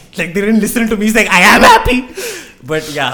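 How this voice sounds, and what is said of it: Speaking very loudly. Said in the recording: “I'm gonna reduce your levels a little bit... I'm screaming into the mic”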